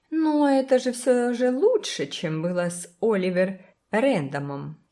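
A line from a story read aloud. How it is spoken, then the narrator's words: Giggling. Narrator (Russian): хихикнула миссис Карр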